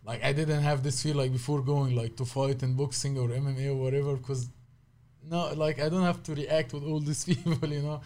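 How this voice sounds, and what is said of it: Heavy non-native English accent. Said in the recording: “English is my second language. I still have like a heavy accent.”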